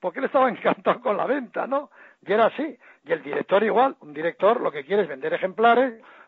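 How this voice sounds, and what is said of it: Usual voice. Nothing is said of it.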